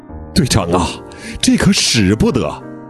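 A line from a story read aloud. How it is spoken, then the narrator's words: Crying. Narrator (Chinese): 陈伟哭着说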